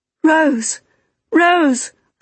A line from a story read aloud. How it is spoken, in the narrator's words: I cried